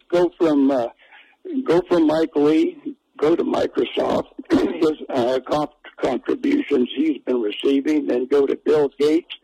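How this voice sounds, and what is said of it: Strained, failing voice. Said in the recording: “I'm losing my voice here for whatever reason”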